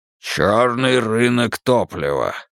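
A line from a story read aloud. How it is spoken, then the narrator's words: Growled. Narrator (Russian): рыкнул Тул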